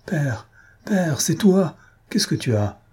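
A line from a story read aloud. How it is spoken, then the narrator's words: Panicked cry. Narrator (French): s'écria, affolée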